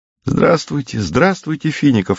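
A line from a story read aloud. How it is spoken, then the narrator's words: Joyful sisters answering. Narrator (Russian): радостно отвечали сестры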